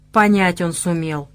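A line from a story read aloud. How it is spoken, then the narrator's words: Seer grumbling. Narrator (Russian): проворчал провидец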